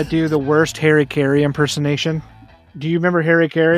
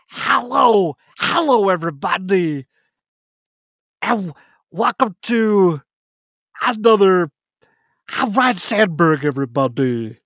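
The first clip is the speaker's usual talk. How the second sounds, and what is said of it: Imitates another person's voice. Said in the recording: “worst Harry Caray impersonation ... Is that a good Harry Caray?”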